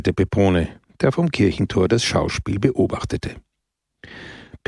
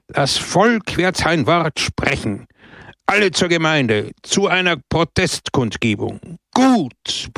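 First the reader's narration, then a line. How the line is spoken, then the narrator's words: Crowd roaring. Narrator (German): brüllte das Volk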